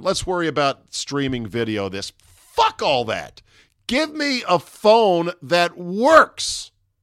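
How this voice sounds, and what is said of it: Screaming, shouting angrily. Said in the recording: “I'm screaming now. I'm going to calm down.”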